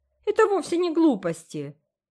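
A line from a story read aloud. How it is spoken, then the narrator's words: Offended objection. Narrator (Russian): обиженно возразил Дэви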